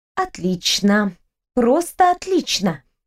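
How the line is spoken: Hissing. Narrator (Russian): шипела я

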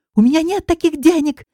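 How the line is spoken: Shrill exclamation. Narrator (Russian): визгливо восклицает Павел

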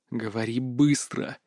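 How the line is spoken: Hiss. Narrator (Russian): прошипел

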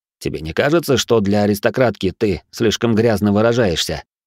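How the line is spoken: Mocking snort. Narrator (Russian): хмыкнул Аллен

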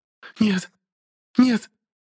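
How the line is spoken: Distant voice broken by sobs. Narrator (Russian): Доносился до нас ее голос, перемежаемый всхлипами

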